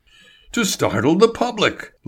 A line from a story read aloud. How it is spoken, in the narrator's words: Label cried